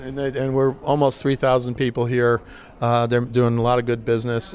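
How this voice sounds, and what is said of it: Hoarse, nearly lost voice. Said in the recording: “I'm exhausted. My voice is gone, as you can tell.”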